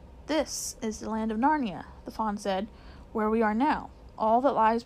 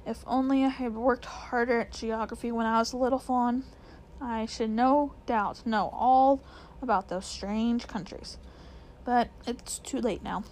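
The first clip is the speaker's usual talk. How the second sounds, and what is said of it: Melancholy character voice. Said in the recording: “said Mr. Tumnus in a rather melancholy voice”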